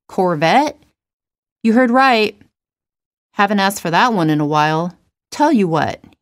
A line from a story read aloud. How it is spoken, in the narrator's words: chuckled